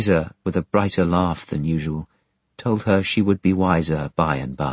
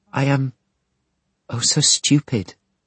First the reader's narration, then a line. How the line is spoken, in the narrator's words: Sissy pleaded